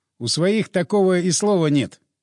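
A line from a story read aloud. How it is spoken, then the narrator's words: Laughing. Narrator (Russian): я засмеялся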